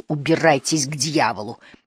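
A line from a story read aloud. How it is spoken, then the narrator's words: Strangled hiss. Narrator (Russian): Риф сдавленно прошипел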